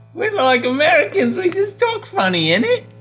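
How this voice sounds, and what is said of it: Put-on English accent. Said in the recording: “You offended them with your accent.”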